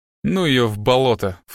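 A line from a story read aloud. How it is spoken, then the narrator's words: Dismissive snort. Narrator (Russian): фыркнул Страйк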